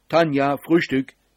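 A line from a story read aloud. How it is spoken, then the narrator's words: Calling out. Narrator (German): rief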